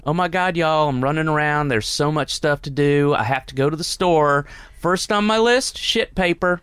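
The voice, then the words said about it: Put-on redneck Southern accent. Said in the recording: “she's total redneck southern accent, so I'll do it in her voice”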